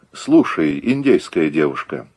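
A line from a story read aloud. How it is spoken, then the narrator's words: Calm reply. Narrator (Russian): спокойно ответил Загоскин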